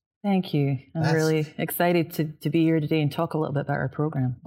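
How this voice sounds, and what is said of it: Scottish accent. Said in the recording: “I dig your dialect. It's just amazing. ... Different. Not what you normally hear in Texas. ... a good Scot ... it gets more Scottish as I get angrier”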